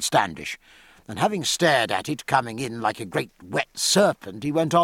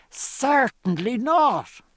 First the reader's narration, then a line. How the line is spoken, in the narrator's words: said Stephen in a screech above the full chorus